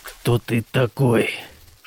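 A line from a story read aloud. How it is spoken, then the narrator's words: Quiet mechanical buzz. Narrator (Russian): Что-то тихо зажужжало на шлеме чудовища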